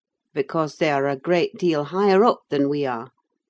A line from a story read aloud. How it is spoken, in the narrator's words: replied I